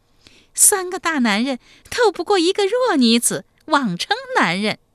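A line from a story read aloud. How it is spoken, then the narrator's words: Coy giggling. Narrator (Chinese): 齐二娇呵呵娇笑说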